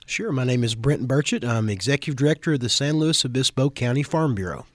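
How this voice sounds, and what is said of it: Slight Kentucky accent. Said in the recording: “I have a little bit of accent, ... if you can't tell. I moved from Kentucky”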